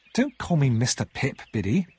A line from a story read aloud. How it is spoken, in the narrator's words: said crossly